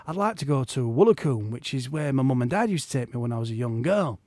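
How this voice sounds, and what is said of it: Put-on Yorkshire accent. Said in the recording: “I'm doing a Yorkshire accent”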